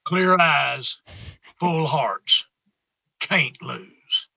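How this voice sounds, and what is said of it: Put-on full Texas accent. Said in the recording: “With full Texas accent.”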